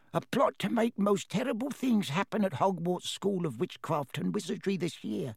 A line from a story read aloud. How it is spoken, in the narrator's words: whispered Dobby, suddenly trembling all over